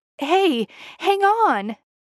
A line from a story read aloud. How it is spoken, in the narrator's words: Gareth exclaims when the first knife hits the target while he's still carrying it